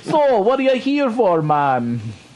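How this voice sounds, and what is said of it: Unconvincing put-on Jamaican accent. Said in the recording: “Was that Jamaican? ... that was supposed to be Jamaican. ... It was supposed to be Jamaican. ... That was Indian. ... let's stop with the impersonation. ... the voice, though?”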